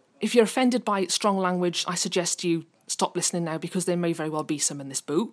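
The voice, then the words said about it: Angry, agitated voice. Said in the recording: “You can probably tell by my voice, I'm angry. Extremely angry.”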